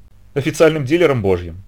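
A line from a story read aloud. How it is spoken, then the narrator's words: Laughing. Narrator (Russian): засмеялась она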